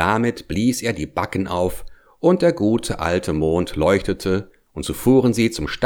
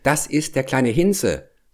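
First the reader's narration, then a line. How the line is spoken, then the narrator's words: Plain. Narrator (German): sagte Hävelmann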